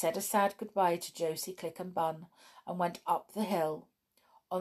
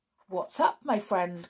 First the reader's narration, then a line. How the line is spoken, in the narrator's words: cried the captain